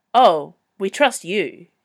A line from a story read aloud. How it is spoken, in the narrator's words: he said firmly